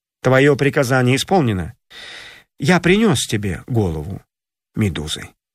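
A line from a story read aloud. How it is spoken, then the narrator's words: Calm. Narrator (Russian): спокойно сказал царю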